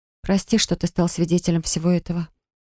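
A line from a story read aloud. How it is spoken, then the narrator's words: Breathless, composing herself. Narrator (Russian): выдохнула я, стараясь взять себя в руки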